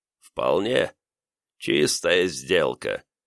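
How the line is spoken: Hoarse, laughing, hissing voice. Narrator (Russian): хриплый, смешливый голос с шипящими

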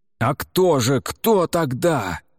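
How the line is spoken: Shouting in fury. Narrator (Russian): сам не свой от ярости кричал Уга

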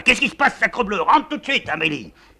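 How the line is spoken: Woman screaming while struggling. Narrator (French): La générale hurle, se débattant

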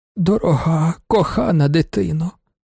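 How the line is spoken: Sobbing. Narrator (Ukrainian): говорила, схлипуючи

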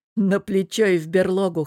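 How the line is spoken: Chuckling reminder. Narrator (Russian): хохотнув, напомнил я

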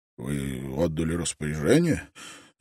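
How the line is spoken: Stammering. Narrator (Russian): запинаясь, продолжал он

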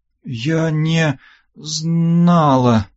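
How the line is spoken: Frightened, panicky breathless exhale. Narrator (Russian): выдохнула Ольга, чувствуя, как живот сводит от страха, а в груди поднимается волна паники

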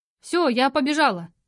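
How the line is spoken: Shouted from doorway. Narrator (Russian): крикнула от порога Кира

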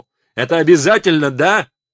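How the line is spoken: Yelling. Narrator (Russian): Я заорал ему

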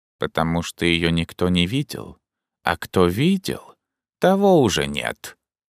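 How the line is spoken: Sepulchral declamation. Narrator (Russian): за могильным голосом продекламировал трактирщик

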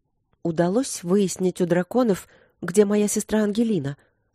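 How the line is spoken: Trembling question. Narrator (Russian): спросила она дрогнувшим голосом

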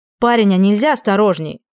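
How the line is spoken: Snapping retort. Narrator (Russian): огрызнулась девушка

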